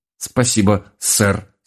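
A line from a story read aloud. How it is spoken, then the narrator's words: Strained, forced out. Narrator (Russian): с трудом выдавил я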